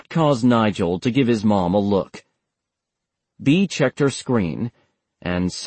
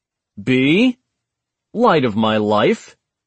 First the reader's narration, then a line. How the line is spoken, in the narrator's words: Seidel said, his voice tense despite the levity